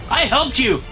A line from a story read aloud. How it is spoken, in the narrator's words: shout